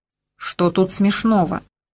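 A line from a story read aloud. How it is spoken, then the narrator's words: Angry interruption. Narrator (Russian): сердито оборвал меня генерал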